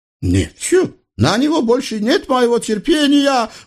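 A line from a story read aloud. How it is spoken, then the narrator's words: Spluttering howl. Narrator (Russian): взвыл султан, плюясь во все стороны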